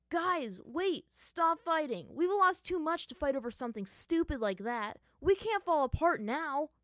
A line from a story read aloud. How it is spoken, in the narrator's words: Sokka shouted